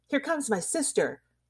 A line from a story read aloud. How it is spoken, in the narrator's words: cried the child